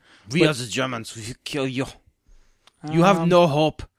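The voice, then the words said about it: Bad put-on German Schwarzenegger accent. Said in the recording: “That's not German at all ... I tried to do a German accent, knowing that my Arnold Schwarzenegger accent is terrible ... it's just terrible ... That was a terrible Schwarzenegger.”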